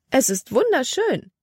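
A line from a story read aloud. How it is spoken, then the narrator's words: Exclaimed. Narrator (German): rief aus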